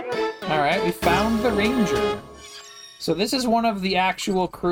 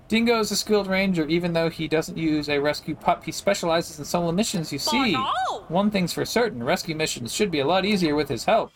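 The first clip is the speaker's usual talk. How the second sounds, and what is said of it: Bad put-on Australian accent. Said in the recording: “my bad Australian accent”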